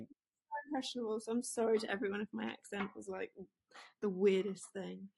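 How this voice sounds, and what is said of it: English accent with a twang. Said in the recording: “she's got an English accent, but it's got a little bit of a twang to it”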